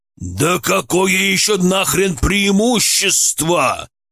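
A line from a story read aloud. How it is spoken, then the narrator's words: Growl. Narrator (Russian): прорычал Мерзлов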